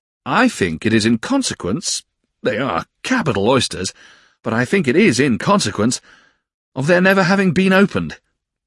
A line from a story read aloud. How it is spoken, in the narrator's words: said Traddles, cheerfully